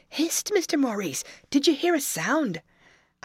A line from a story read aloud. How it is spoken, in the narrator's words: Tim exclaimed